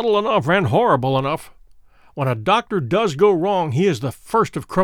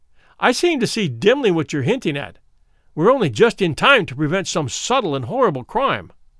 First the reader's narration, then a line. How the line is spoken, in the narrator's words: I cried